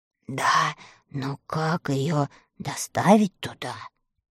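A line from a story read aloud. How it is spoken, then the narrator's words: Whispered. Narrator (Russian): прошептал Страшила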